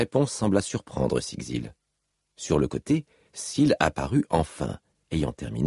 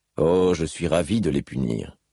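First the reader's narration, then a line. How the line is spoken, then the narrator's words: Plain. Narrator (French): dit Kaladin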